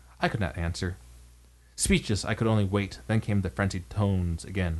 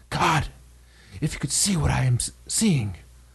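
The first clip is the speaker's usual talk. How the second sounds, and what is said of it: Shaky, alarmed whisper. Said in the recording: “in accents more alarmed and quivering than any I had heard before ... now called from below in a shaky whisper, more portentous than the loudest shriek”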